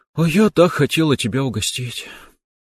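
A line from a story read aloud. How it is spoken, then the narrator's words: Sighing, young woman. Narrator (Russian): вздохнула девушка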